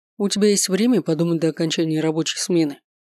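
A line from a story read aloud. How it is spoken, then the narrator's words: Matter-of-fact tone. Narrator (Russian): будничным тоном заявил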